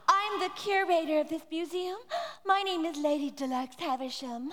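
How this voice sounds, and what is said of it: Character voice like a vacuum cleaner. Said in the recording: “you sound like an expensive vacuum cleaner”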